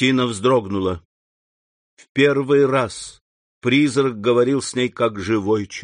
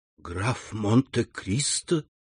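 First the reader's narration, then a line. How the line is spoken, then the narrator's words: Whisper. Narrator (Russian): прошептала она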